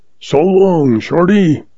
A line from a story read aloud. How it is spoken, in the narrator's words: He hollers